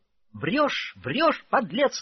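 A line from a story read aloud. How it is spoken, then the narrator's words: Anguished shouting. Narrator (Russian): надрывно кричала Катерина Ивановна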